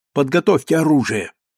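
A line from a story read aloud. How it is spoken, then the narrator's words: Decisive repetition. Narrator (Russian): повторил я решительно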